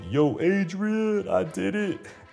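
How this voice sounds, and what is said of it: Rocky Balboa movie character voice. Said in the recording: “my Rocky Balboa impersonations”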